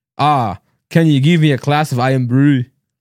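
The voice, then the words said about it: Bad fake Scottish accent. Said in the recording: “I'm fantastic at like accents, like Scottish ... do a Scottish accent ... How bad. ... You don't even roll your R.”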